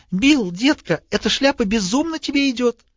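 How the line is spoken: Squeaky mock-female voice. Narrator (Russian): другой, подражая женскому голосу, запищал

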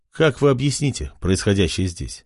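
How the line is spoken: Plain. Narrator (Russian): спросил король

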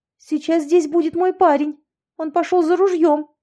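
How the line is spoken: Blurted out. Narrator (Russian): ляпнула я

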